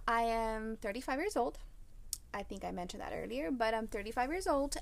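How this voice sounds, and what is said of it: Slight Spanish-influenced accent. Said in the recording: “I do speak Spanish, so if you hear me with a little accent, I don't know why. I just can't get rid of it ... it's just there and it's part of me”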